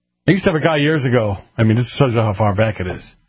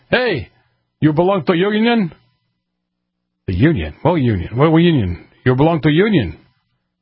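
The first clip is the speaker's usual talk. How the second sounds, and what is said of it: Heavy Russian accent imitation. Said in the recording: “With a heavy, heavy Russian accent.”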